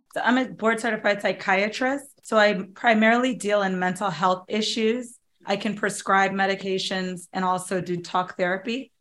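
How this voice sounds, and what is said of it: Raspy, under-the-weather voice. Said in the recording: “I'm a little under the weather. So I've got this raspy thing going on”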